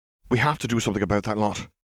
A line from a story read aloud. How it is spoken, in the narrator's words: Gabriel Moody said urgently